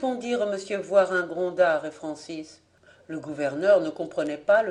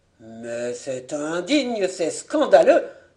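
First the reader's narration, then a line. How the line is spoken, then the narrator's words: Cried out. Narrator (French): s'écria Monsieur Voirin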